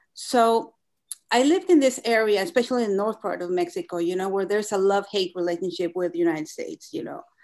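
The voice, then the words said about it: Heavy Spanish-influenced accent. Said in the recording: “I have this really heavy accent. ... Spanish is my first language.”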